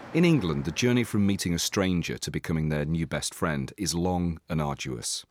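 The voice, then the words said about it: English accent. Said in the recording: “You have a beautiful accent ... swooning at my accent ... Sexy voice ... Mr. Sexy English Voice”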